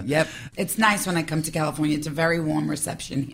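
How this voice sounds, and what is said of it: Strong New York accent. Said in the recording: “it's so obvious you're from New York ... my voice is, you could pin me out anywhere. I'm like, New York. ... Staten Island.”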